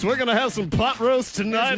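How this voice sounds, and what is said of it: Radio DJ announcer voice. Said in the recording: “can you say something in your radio voice ... What they want is ... radio voice”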